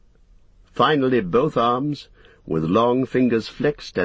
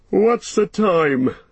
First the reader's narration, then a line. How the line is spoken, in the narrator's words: he said sleepily